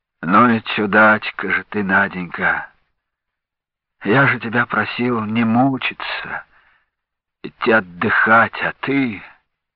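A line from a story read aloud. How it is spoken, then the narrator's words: Tender mumble. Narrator (Russian): умиленно пробормотал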